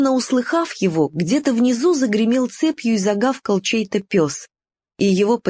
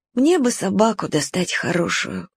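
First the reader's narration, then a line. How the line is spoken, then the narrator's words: Sighing. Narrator (Russian): вздохнул Уголек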